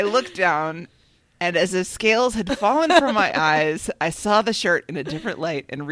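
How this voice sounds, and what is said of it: Usual voice. Nothing is said of it.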